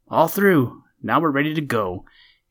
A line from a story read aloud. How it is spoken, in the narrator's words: he cried joyfully